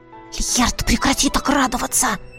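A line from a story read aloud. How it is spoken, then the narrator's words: Hissing. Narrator (Russian): зашипела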